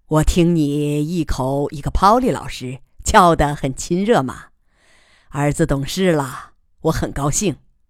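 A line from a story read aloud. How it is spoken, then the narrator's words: Smiling. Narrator (Chinese): 姬仁瑞笑着对儿子说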